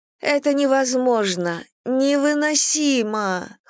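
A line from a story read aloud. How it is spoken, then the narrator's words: Whimpering. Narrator (Russian): хныкала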